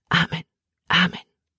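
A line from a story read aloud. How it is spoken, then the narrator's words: Whispered. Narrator (German): flüsterte Emma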